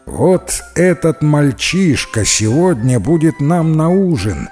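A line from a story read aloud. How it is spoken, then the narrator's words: Plain. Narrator (Russian): сказал мистер Майка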